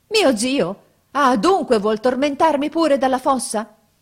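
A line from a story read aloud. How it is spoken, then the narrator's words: Shouted. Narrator (Italian): Gianni gridò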